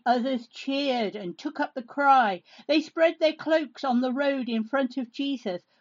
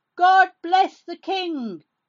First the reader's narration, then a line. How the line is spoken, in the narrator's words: One of the people who'd come with Jesus from Galilee shouted